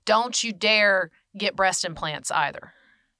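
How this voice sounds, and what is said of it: Strong put-on Southern accent. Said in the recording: “add a real, real strong Southern accent”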